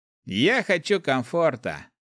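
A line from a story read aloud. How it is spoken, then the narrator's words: Young man's snort. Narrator (Russian): фыркнул парень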